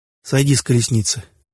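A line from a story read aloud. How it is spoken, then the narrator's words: Soft command. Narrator (Russian): мягко приказал он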